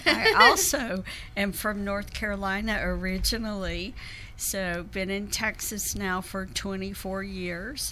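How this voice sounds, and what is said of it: Southern American accent. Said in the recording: “I have a Southern accent like QC”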